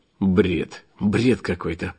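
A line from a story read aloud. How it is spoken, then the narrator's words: Mumble. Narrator (Russian): пробормотал я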